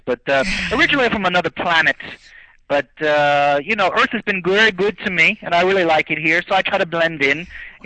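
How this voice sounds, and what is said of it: New York Italian accent. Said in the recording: “I'm hearing like a New York type accent. Are you Italian New York? ... New York Italian”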